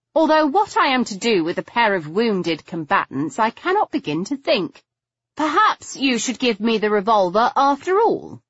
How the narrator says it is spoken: I suggested brightly

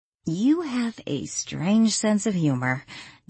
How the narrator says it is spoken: Danielle said with a sigh

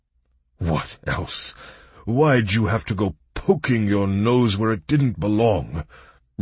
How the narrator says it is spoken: rumbled the magician in a loud bass

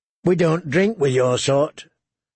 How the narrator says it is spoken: Yellow Cloak said curtly

